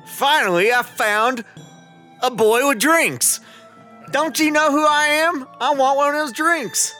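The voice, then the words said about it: Thick put-on Southern accent, angry. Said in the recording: “with a thick southern accent ... who is pissed off”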